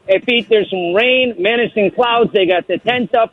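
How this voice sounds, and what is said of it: Put-on Chicago accent. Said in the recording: “I'm doing my Chicago voice now because of you.”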